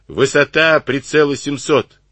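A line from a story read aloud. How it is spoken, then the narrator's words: Shouting orders. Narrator (Russian): крикнул канонирам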